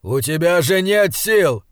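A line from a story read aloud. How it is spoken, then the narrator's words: Angry, disappointed. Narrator (Russian): сердито сказал Энскалдер, словно его постигло неприятное разочарование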